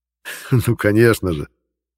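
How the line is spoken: Laughing. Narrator (Russian): рассмеялся

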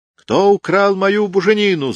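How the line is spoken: Yelled. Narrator (Russian): завопила Анна Иоанна

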